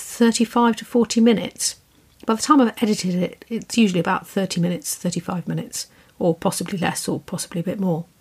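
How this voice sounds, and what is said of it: Soft, quiet southern English accent. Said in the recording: “I have a very quiet voice. I'm British, as you can hear. And I have this soft little southern English accent ... my soft little whittering on”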